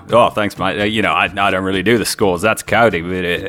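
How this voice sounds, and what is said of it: Put-on Australian accent. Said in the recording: “I can only do Australian now.”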